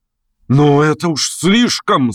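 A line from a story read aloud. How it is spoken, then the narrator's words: Shouted. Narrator (Russian): закричал он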